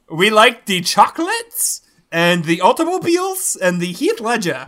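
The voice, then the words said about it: Bad put-on German accent. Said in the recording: “That's my German accent ... Y'all's German accents are real bad”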